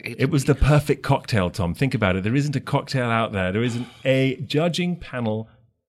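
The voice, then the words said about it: Posh English accent. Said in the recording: “he's got this really sort of plumbing English accent now”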